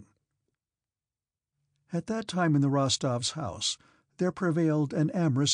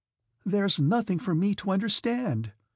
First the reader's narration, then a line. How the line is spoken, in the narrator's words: she cried out with resolute self-will